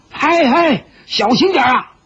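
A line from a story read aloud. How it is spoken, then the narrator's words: Hurried shout. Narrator (Chinese): 后梢的船家连忙大叫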